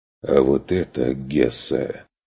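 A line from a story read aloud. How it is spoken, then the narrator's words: Hoarse remark. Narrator (Russian): заметил сипло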